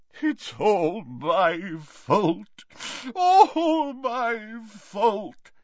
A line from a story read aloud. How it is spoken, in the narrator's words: sobbed